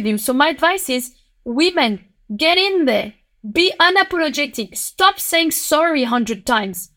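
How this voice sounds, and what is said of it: Thick French accent. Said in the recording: “with your French accent ... You have such a thick French accent.”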